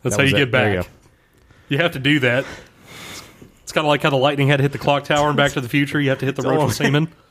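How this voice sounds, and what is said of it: Congested, failing voice. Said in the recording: “I'm really full of snot. My voice is going.”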